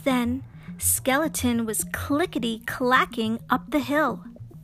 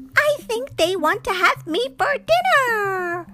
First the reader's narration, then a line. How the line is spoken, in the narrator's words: cried Skeleton